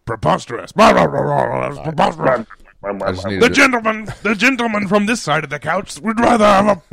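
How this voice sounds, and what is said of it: Mock British parliamentary debate voice. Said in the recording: “that's our imitation of Parliament ... not a bad imitation of Parliament”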